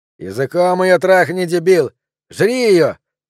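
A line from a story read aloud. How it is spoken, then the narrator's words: Shouting. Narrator (Russian): кричал длинноволосый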